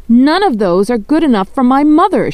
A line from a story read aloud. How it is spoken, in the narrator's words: she shouted